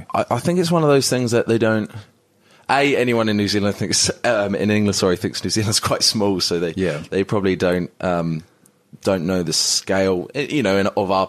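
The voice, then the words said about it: English Essex accent. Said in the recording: “you obviously got a bit of an accent ... Is it from the UK, from Essex, I believe? ... Yeah, Essex, yeah.”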